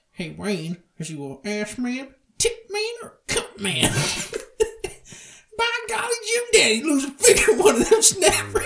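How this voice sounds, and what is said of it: Impression of McMurray. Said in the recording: “You should do the McMurray voice, too.”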